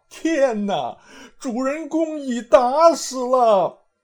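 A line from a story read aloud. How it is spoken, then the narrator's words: Crowd wailing in grief. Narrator (Chinese): 众皆伏尸而哭，悲悲啼啼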